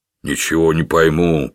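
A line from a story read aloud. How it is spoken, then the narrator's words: Grumbling. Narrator (Russian): проворчал Гилтон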